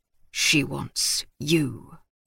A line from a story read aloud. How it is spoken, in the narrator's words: he said simply, his voice low and gruff